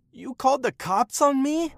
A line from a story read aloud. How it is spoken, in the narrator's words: he screamed